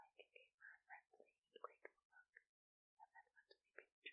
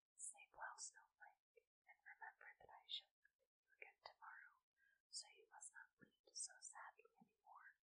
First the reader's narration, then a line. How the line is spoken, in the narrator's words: saying in a gentle, soothing voice